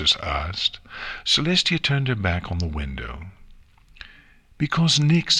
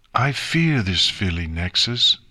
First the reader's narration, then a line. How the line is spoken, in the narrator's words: concluded with a heavy sigh